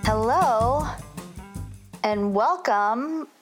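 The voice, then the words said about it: Speaking very slowly. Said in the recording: “saying that so slowly.”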